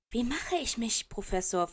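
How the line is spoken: Loud whispered question. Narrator (German): fragt in einem lauten Flüsterton

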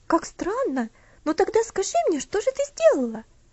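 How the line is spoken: Curious exclamation. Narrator (Russian): Опять воскликнула Луси, не скрывая любопытства

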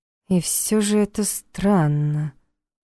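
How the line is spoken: Drawn-out. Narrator (Russian): протянула Саша

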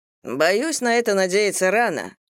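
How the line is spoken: Dejected. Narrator (Russian): уныло произнес Джо

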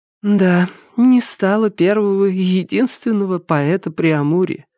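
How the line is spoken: Sad tearful nurse. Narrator (Russian): грустно вытирая платком уголки глаз, произнесла незнакомая мне сестра Милосердия

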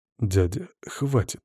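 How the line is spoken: Quiet clan head. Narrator (Russian): негромко произнес глава рода Алиера

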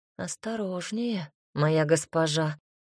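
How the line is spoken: Quiet. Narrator (Russian): тихо произнес Стефан

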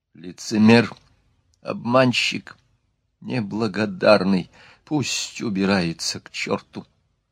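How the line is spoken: Muttering through teeth. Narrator (Russian): бормотала сквозь зубы

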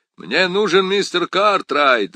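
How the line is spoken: Loud reply. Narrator (Russian): громко ответил Перри Мейсон

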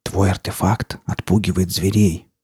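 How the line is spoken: Forester's whisper. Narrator (Russian): прошептал лесник

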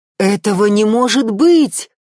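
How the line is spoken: Exclamation. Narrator (Russian): воскликнул Эрик

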